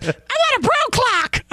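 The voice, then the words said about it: Higher-pitched mocking impression of another speaker. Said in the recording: “When you make fun of me, your voice doesn't have to go higher... your voice is high enough as it is. You don't need to go higher to do my impression. Maybe a little raspy, but like definitely not higher.”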